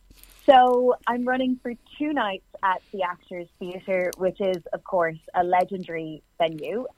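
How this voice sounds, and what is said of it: Irish accent. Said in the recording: “I'm a writer and performer from Ireland, in case you can't hear the accent.”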